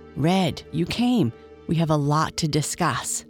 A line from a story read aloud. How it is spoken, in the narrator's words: whispered